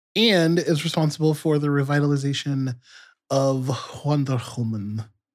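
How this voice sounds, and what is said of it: Put-on Themysciran accent. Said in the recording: “did you like my accent, my Themyscira? ... It was an accent.”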